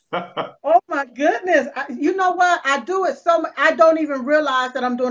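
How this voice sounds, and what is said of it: Southern American accent. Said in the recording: “I enjoy your southern accent. It's beautiful.”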